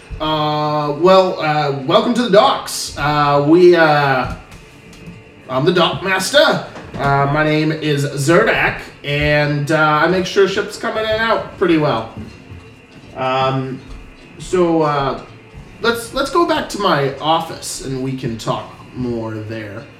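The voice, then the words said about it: Put-on character accent, poorly done. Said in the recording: “I'm just going to give up on his accent, because I'm not good at that one. So we'll just go normal voice.”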